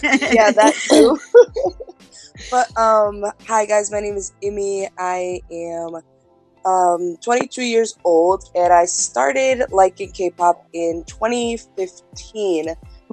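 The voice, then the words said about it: Rough morning voice. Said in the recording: “Excuse my voice. ... Morning voice.”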